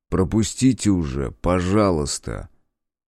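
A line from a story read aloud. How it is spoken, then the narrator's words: Strained, through gritted teeth. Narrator (Russian): сквозь зубы произнес, стараясь протиснуться в дверь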